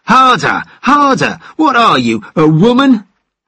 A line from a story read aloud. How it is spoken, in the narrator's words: Hector impatiently exclaimed